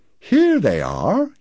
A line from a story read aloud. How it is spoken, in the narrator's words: he said cheerfully